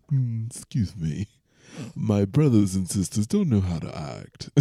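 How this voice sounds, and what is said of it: Very proper, posh character voice. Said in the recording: “I do like to have my kid have like a very proper accent.”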